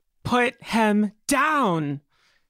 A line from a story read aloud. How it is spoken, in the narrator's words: Amelia shouts out